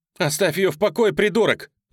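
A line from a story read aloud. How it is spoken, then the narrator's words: Screaming. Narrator (Russian): завопила Джулия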